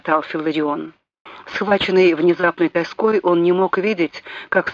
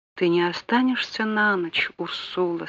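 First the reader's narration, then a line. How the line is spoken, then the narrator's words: Barely audible question. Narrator (Russian): спросил он еле слышно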